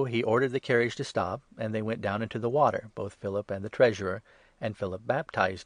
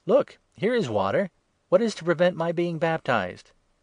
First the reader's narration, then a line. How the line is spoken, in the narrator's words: the treasurer exclaimed